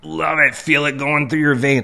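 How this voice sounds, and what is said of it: Hulk Hogan impression. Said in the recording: “doing a Hulk Hogan impression”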